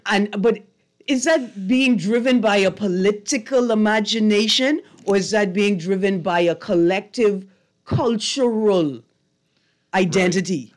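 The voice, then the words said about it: Bahamian accent. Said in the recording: “I don't change my accent. I want people to know I was a Bahamian”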